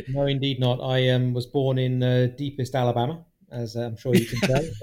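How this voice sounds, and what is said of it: British accent. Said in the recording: “the accent says it all ... clearly you're not from Russia ... from the UK, obviously”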